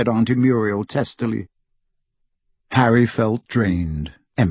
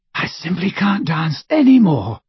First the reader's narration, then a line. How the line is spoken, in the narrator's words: she panted